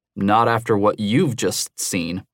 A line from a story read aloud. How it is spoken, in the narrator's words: he said, his voice ugly